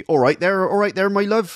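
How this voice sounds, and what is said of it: Put-on West Country accent. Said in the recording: “If I try and do a Norwich accent, it comes out all West Country.”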